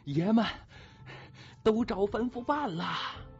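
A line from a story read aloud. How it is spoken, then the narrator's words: Breathless shouting. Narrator (Chinese): 蔡德昌上气儿不接下气儿的喊着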